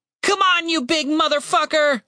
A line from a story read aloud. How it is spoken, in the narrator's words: Tim shouted